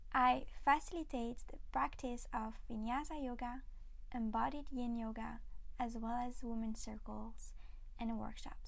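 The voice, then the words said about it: Slight French accent. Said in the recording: “if you hear a bit of a French accent, that is completely normal”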